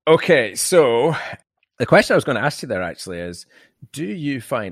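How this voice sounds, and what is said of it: Mixed transatlantic mid-Atlantic accent. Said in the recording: “I pick up bits of accents quite badly, which gives me this hideously jacked up transatlantic, mid-Atlantic accent”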